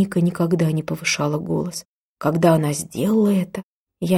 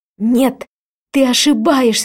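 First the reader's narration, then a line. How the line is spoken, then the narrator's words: Shout. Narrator (Russian): закричала я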